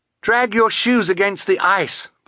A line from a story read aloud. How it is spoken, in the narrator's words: Violet cried